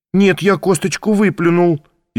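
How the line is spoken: Frightened. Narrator (Russian): испуганно сказал Ваня

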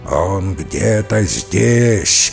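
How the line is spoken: Angry rough growl. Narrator (Russian): злобно рычал все тот же грубый голос

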